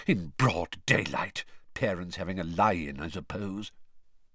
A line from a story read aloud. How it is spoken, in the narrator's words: he muttered distractedly